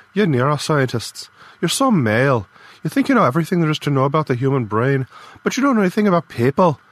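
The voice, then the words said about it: Stronger Irish accent, angry tone. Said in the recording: “Her Irish accent got stronger when she was angry.”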